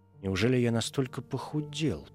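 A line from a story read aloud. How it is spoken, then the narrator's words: Sick man's whisper. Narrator (Russian): прошептал больной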